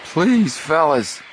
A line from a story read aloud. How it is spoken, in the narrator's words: he begged